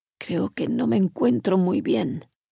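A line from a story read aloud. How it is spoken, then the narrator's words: Hollow groan broken by coughing. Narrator (Spanish): gimió el ruso con voz cavernosa que se interrumpió por un ataque de tos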